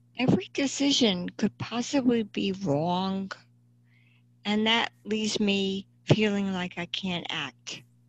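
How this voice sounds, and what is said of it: New Jersey accent. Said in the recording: “I have a New Jersey accent.”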